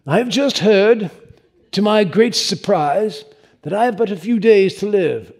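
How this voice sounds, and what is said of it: Deliberately bad English accent. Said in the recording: “I'm going to try to read it in a really bad English accent”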